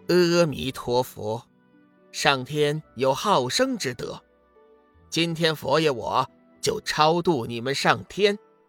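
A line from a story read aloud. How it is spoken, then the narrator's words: Cold, fearless, low chant. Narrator (Chinese): 志远冷笑一声，并不畏惧，低声宣了一声佛号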